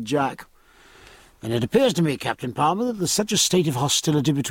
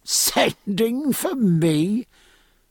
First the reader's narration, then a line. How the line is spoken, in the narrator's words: said Jack, laughing